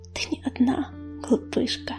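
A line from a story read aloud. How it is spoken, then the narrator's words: Whisper. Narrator (Russian): прошептала подруга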